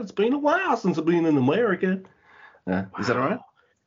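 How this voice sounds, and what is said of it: Zack Sabre Jr. putting on American accent. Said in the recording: “Zack did a promo in American ... Can you tell us what that sounded like?”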